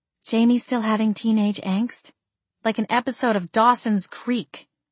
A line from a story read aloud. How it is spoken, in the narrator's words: I sighed